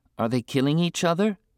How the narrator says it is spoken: he said in a tense, small voice

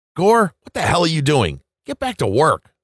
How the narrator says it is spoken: Martin's boss barked from behind him

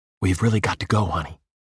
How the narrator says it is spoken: he whispered into her ear

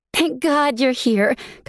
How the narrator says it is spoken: Kylie exclaimed

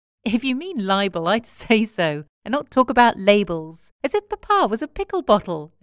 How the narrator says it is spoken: advised Jo, laughing

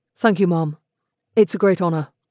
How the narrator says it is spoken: Quincy replied flatly

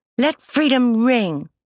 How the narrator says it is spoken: she shouted

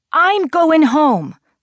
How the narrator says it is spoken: I started to yell

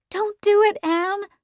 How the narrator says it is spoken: Diana cried

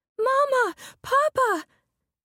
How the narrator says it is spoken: Elsa cried desperately

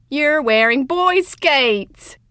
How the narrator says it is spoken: Justin screeched

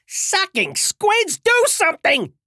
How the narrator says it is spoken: He yelled at the sled

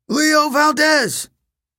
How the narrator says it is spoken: Coach Hedge yelled from the front

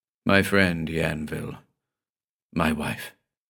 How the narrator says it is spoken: he said in a low voice

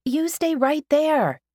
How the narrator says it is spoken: yell back

